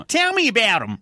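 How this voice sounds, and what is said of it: Exaggerated broad Australian bogan accent. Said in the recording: “he goes straight into like a real Aussie bogan accent.”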